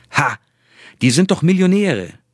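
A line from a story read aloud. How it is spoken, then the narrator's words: Clever, strong Ghanaian accent. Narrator (German): erwiderte der Sicherheitsmann clever und mit starkem ghanaischen Akzent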